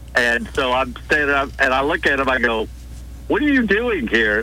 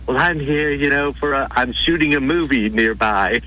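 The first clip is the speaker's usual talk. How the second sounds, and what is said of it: Slight British accent, Roddy McDowall impression. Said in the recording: “he's got that real tiny British accent.”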